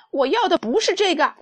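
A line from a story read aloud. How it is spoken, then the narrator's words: Very angry shout. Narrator (Chinese): 马尔索可可一世非常生气，大叫道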